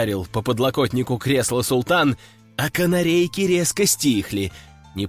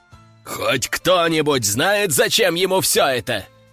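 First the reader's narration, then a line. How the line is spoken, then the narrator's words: Roaring. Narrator (Russian): взревел султан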